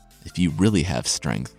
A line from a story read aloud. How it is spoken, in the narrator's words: the giant said